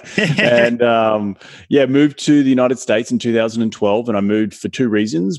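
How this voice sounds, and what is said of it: Australian accent. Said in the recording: “originally from Australia, you can hear”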